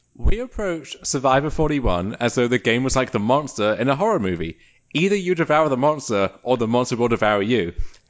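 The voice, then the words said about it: Put-on British accent. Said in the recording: “let's hear it in a British accent.”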